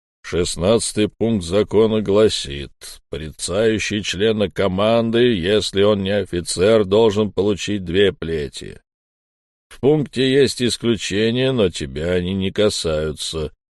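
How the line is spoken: Booming dead man's voice. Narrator (Russian): прогудел мертвец

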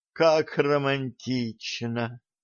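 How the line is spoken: Sighing. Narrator (Russian): вздохнула Алиса

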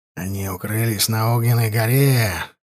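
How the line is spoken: Quiet speech. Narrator (Russian): тихо говорил товарищам сумеречник Вуйко

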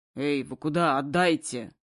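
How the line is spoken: Fairly menacing growl. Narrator (Russian): довольно грозно рыкнул

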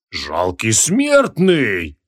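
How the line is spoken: Angry booming giant. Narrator (Russian): гневно прогудел гигант

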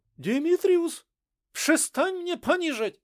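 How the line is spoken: Woman's startled cry. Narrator (Russian): вскрикнула женщина

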